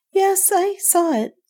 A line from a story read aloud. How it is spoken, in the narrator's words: she said in a queerly colorless voice